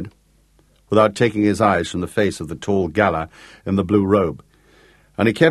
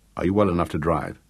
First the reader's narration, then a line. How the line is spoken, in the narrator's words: Gareth asked quietly